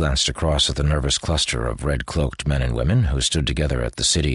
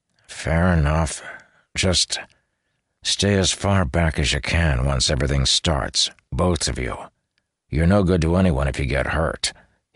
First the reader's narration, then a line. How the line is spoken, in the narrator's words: he said gruffly